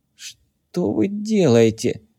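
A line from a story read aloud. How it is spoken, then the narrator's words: Moaning. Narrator (Russian): простонал Табулин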